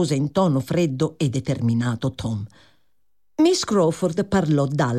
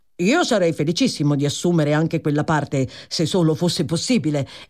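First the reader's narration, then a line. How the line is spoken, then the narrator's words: Exclaiming. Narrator (Italian): esclamò Tom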